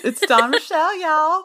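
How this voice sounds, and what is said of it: Put-on southern accent. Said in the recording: “That's my southern accent. You got to hear it.”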